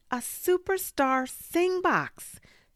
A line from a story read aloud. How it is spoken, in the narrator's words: she yelled